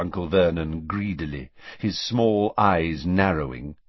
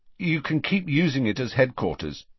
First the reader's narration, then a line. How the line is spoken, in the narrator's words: said Harry